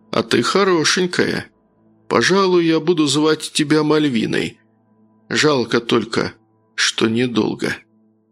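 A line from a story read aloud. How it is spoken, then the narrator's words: Soft, smiling voice. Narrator (Russian): по-прежнему улыбаясь, мягко произнес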